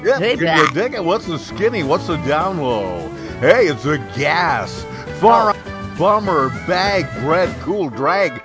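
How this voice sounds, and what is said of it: Disc jockey voice. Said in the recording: “in my disc jockey voice”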